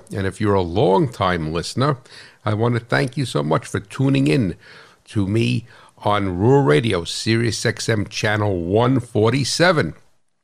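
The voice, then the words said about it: New Jersey accent. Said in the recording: “the hot rod farmer from New Jersey, right? That's where this funny accent is from”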